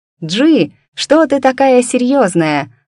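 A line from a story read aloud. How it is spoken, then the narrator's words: Excited, almost squealing exclamation. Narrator (Russian): радостно воскликнула кузина, едва не повизгивая от переполнявшего ее воодушевления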